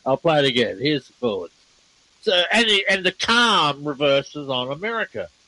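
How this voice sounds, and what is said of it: Speaks with a noticeable accent. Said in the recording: “my accent. You should know my accent.”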